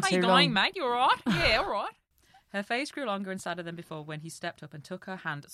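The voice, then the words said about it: Put-on Australian accent. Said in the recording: “let's have a little Australian man. ... I think an Australian accent suits him.”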